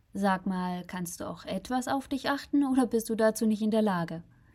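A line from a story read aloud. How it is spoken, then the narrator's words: Sarcastic question. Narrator (German): fragte er sarkastisch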